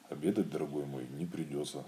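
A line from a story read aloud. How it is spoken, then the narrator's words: Plain. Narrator (Russian): сказал Кристофер Робин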